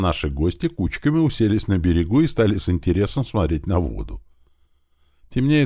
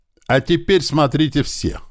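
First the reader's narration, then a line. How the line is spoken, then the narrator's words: Loud. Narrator (Russian): громко сказал Большой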